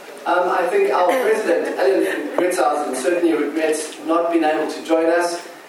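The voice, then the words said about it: South African accent. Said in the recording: “if that accent is strange, it's a South African accent”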